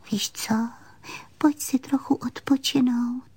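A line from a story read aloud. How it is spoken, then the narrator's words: Leaning in, whispered. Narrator (Czech): Panenka se naklonila a pošeptala jí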